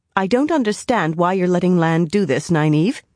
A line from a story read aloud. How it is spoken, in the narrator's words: she said as firmly as she could